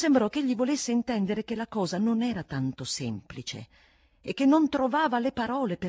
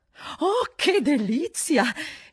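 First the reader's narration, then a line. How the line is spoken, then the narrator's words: Woman's exclamation. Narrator (Italian): esclamò una delle donne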